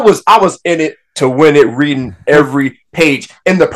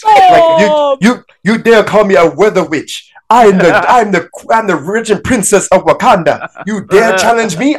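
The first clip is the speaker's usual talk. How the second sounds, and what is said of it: Accented dramatic character voice. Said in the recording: “The accent ... I was reading the panel in her voice.”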